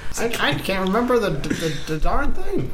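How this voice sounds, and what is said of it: Goblin prospector character voice. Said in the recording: “Are you a goblin prospector based on the pickaxe and accent?”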